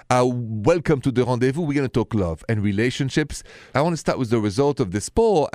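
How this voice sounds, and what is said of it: French accent. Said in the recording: “The accent is French, straight from Paris.”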